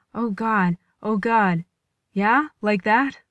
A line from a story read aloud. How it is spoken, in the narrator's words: Gong Jun said thickly